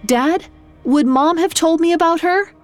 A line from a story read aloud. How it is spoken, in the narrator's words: Malcolm sat up and called out